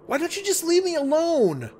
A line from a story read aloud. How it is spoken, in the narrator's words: screamed